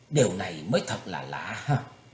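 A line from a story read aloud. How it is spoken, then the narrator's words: Feigned confusion, muttering. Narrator (Vietnamese): Thủy Tuấn Hạo cố làm ra vẻ ngơ ngơ ngác ngác không hiểu, lẩm bẩm nói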